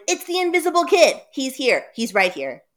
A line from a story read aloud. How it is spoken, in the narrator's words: Sammy shouted